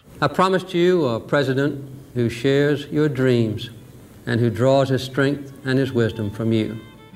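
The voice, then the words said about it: Southern American accent, soft R sounds. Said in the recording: “a certain common understanding of the Southern accent was cemented in the minds of most Americans, an accent with distinctly soft R sounds”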